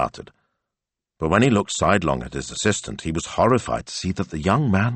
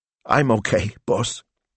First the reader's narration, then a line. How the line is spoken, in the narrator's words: Smilso choked